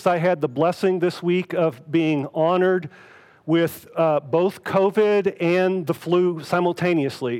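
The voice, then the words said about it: Sick, under-the-weather voice. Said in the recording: “you can probably tell from my voice, a little under the weather”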